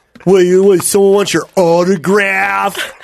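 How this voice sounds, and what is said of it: Imitates another person's voice. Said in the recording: “my Korean roommate, William, he'd be like... I don't know why I'm giving him that voice.”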